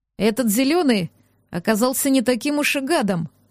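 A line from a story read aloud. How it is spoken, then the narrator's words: Snort. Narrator (Russian): хмыкнул Хенсли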